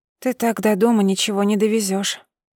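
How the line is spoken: Grumbling. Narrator (Russian): проворчала я

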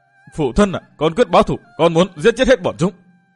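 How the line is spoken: Emotional hiss. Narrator (Vietnamese): Hắn xúc động tâm tình rít lên

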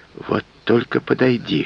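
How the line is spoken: Whispering. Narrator (Russian): шептал

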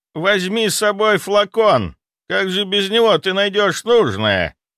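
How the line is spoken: Shouted after someone. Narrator (Russian): крикнул вслед

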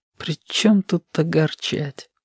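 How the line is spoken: Barely audible. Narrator (Russian): проговорил еле слышно

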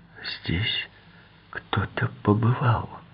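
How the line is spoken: Crushed whisper. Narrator (Russian): прошептала Джулия убитым голосом

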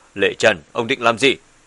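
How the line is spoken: Shocked, angry. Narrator (Vietnamese): Bùi Thiên Âm lập tức biến sắc, tức giận nói

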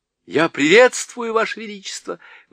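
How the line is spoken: Exclaimed. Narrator (Russian): воскликнул Каспиан

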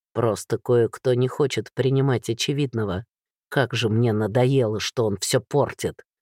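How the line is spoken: Angry werewolf growl. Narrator (Russian): Зло рыкнул оборотень

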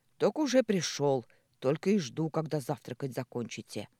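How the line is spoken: Grumbled. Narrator (Russian): проворчал

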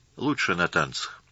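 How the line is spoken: Quiet. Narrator (Russian): так же тихо ответил Юра

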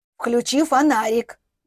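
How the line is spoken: Loud whispered request. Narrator (Russian): громким шепотом попросила она

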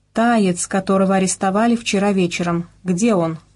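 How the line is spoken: Plain. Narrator (Russian): спросил я

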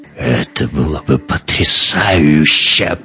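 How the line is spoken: Growled. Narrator (Russian): прорычал Эккарт

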